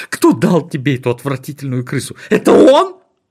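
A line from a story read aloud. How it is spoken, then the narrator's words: Shouting. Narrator (Russian): закричала она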